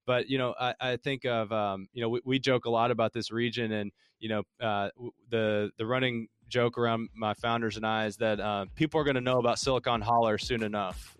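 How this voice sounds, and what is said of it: Noticeable regional American accent. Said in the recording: “I told you it comes out. It's after I've been pitching all day... I can clean up my accent to where it's not horribly offensive to you... my dialect changes... my code switching must be wearing off”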